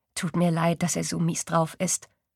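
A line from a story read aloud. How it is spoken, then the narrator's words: Plain. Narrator (German): sagt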